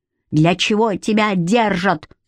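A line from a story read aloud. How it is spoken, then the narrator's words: Yelled. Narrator (Russian): главный орал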